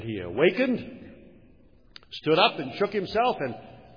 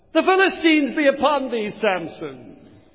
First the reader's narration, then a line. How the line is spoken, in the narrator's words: she cried once more